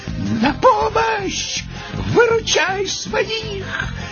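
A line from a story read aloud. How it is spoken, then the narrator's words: Shouted. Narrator (Russian): крикнул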